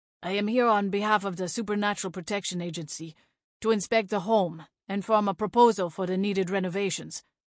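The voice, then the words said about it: Slight French accent. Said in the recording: “with a hint of a French accent.”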